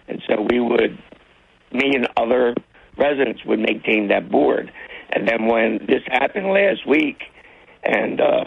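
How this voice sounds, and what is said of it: Hoarse voice. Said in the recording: “excuse my voice, I get hoarse.”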